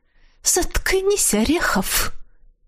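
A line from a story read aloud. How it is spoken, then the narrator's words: Hissed. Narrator (Russian): когда она это прошипела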